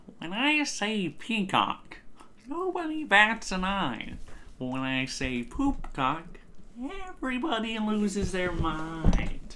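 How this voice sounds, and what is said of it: Joker character voice impression. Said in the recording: “my Joker impression”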